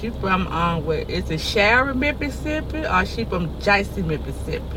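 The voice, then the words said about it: Floridian regional accent. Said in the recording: “That's a Floridian accent. ... It sounds like a dialect. ... You sound like from far.”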